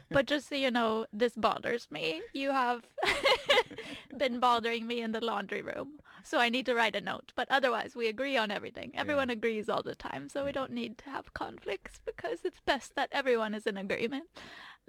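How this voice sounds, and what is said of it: Put-on Swedish accent. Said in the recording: “offensive. Swedish accent tone.”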